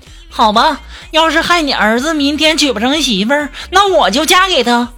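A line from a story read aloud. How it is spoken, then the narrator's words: Loud, exasperated. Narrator (Chinese): 苏木实在是听不下去了，要大声就在那说呀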